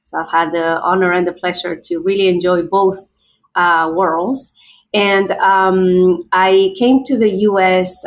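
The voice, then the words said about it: Spanish-accented English. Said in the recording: “as you can probably tell by my accent. I might be from, you know, I have an accent”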